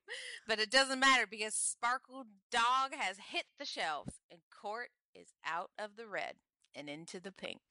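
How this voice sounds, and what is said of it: Put-on accent. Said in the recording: “I don't know why I'm talking in this accent.”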